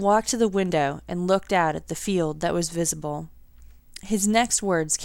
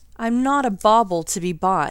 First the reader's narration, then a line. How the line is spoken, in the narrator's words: he said, slightly more hotly than he meant